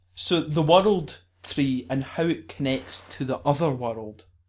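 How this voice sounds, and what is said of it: Scottish accent, rolled R's. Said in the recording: “in my Scottish accent, I tend to roll my R's”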